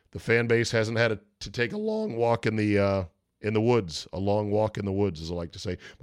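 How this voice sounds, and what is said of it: Voice cracking from a cold. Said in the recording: “My voice cracked right there, by the way. I am finally coming around on this cold or whatever it is ... I had a sore throat Saturday morning ... It's been a little bit wonky today.”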